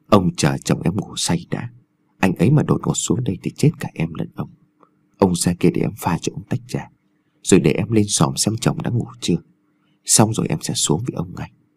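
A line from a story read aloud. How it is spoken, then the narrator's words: Soft coaxing murmur. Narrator (Vietnamese): dùng giọng nhẹ nhàng thỏ thẻ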